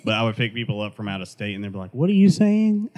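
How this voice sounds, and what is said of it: Regional American accent. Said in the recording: “I think I don't have an accent. Obviously, I do.”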